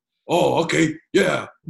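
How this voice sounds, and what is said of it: Impression of Aaron Singerman. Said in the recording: “good Singerman impression”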